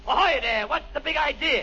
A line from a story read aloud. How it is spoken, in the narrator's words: the shells started falling all around me, so I yelled